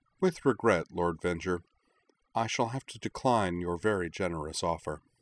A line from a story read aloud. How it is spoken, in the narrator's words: said calmly